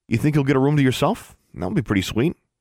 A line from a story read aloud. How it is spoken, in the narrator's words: David said